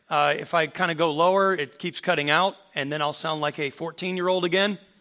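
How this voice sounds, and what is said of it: Deliberately louder speaking voice. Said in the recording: “my voice might be a little louder. That is intentional.”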